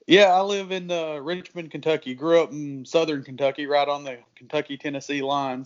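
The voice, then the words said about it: Southern Kentucky drawl. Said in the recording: “I'm sensing a little southern draw there ... I've got a little bit of a draw, I'm told ... he's got a way thicker accent than I do ... huge amount of draw”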